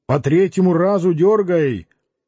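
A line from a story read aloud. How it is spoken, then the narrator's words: Shouted. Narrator (Russian): Печник крикнул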